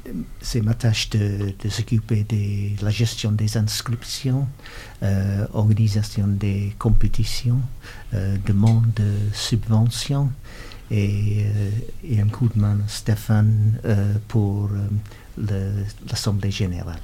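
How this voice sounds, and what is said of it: Northern English accent speaking French. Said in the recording (French): “Cet accent vient de où ... Le nord d'Angleterre.”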